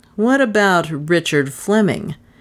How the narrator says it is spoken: persisted the detective scornfully

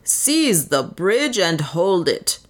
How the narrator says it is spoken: roared Pereira again

